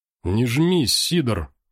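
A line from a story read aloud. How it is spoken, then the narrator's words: Cheerful and pleased. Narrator (Russian): весело ответил Соболь, явно довольный возможностью запустить лапу в карман к барыге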